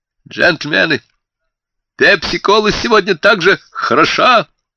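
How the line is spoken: Rich, head-waiter voice. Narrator (Russian): произнес он сочным голосом заправского метрдотеля

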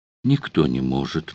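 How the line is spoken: Repeating, then shuddering sigh. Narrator (Russian): повторила она и судорожно, длинно вздохнула

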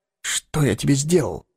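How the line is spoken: Forced through gritted teeth. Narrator (Russian): выдавил сквозь зубы Эггерт

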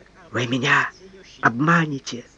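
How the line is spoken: Sickly whisper. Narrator (Russian): прошептал чахоточный

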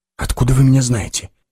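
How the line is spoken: Strained, forced out. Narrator (Russian): выдавил Соль

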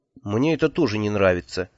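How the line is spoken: Sad. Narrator (Russian): печально сказал я

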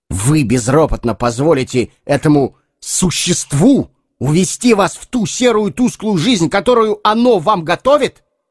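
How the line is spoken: Shouting from a distance. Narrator (Russian): Карвер все кричал издали

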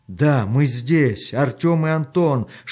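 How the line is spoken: Shouting with all strength. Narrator (Russian): что было сил, закричал Артем

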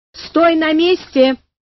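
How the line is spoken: Shouted from above. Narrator (Russian): крикнул сверху

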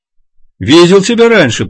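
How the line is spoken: Shouting over roaring engine. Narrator (Russian): прокричал водитель, перекрывая рев мощного двигателя

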